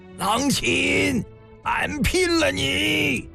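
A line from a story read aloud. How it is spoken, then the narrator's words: Roar from the flames. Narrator (Chinese): 火海中一声大吼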